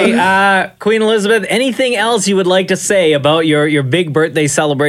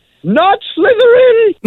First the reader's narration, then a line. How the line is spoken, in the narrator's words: I was so drunk, I yelled